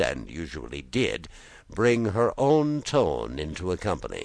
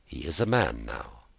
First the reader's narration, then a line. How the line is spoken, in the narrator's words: she replied quietly